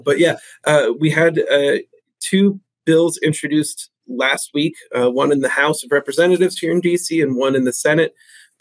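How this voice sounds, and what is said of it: Congested, rough voice. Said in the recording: “It's the height of allergy season here in D.C., so my voice is kind of terrible. I'm very congested, so I apologize for how I sound.”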